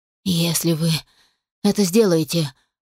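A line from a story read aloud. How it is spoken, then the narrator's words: Hoarse rasp. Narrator (Russian): прохрипел он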